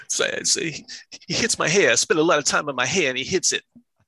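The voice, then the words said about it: Imitates another person's voice. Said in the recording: “That's my Travolta”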